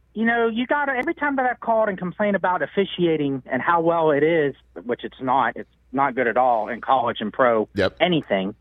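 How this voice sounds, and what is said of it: Thick Pittsburgh accent. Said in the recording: “is a Pittsburgh guy. He's got the thick accent”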